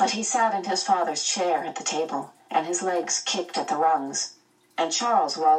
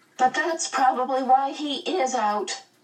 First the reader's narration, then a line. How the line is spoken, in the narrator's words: Meg wailed